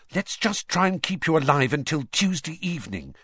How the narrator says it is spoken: she said desperately

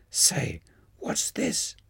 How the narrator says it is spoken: Bose whispered in my ear

